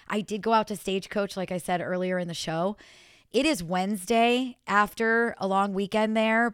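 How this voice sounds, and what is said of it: Hoarse voice. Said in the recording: “you guys can still hear me. I am so hoarse... I absolutely sound like I partied all weekend”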